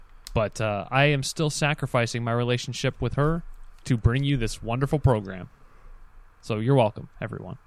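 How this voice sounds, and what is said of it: Speaking quietly in a low register. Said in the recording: “the tenor of my voice is a little bit different this week ... I'm trying to speak at a low register so as not to wake her”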